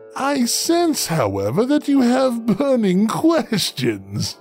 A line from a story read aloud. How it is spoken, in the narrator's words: he said with a laugh